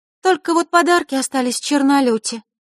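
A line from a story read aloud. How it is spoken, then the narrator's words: Sighing. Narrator (Russian): вздохнула Диана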